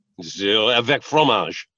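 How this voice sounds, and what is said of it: Put-on French accent. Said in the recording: “Can you do a French accent?”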